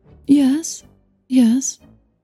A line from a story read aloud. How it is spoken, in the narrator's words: Charlotte said hesitantly